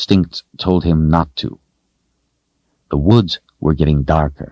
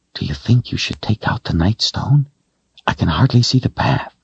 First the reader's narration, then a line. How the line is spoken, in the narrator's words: Kaylin whispered